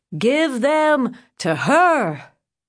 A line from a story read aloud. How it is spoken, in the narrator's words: he yelled